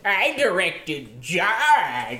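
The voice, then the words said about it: Imitates another person's voice. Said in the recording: “Steven Spielberg, that's a good impression. ... That's exactly what he sounds like.”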